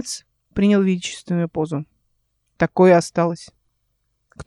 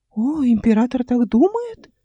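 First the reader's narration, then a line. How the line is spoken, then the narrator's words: Exclaiming. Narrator (Russian): воскликнул он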